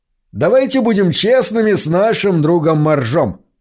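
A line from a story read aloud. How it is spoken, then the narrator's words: Shouted. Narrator (Russian): выкрикнул он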